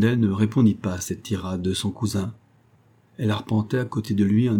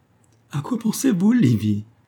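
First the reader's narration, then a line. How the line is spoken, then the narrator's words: Exclaimed, ending in laughter. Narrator (French): s'écria Edward, éclatant de rire à la fin de sa question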